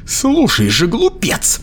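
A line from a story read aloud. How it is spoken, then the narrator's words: Exclamation. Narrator (Russian): воскликнула она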